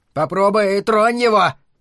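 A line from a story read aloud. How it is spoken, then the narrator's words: Friend's shout. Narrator (Russian): крикнул кто-то из его друзей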